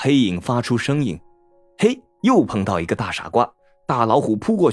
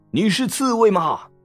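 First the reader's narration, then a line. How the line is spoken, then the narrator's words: Loud roar. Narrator (Chinese): 大老虎大吼一声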